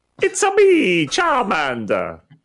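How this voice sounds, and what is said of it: Exaggerated Italian accent. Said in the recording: “they have Italian accents ... that was a flawless...”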